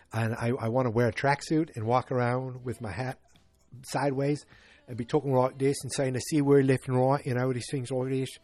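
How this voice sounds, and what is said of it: Mediocre put-on British accent. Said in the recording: “I know it's not a very good British accent ... sometimes I just talk like this”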